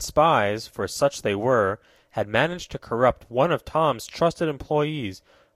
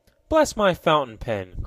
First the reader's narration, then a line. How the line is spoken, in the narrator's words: cried Mr